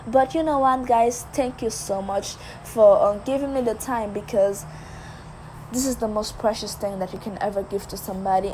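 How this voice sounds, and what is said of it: Very thick foreign accent. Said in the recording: “my very thick accent”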